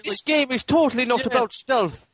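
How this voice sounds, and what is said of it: Put-on Irish accent. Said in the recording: “I can't do an Irish accent. ... That was good.”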